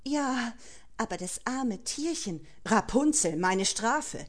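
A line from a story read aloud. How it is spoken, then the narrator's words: Agitated panting. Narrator (German): keuchte schwer erregt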